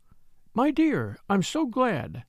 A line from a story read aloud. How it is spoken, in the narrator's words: she said warmly